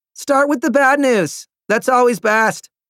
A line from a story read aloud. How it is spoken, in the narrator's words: Lavinia yelled